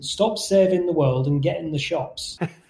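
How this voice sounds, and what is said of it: Put-on Yorkshire accent. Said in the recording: “in his Yorkshire accent”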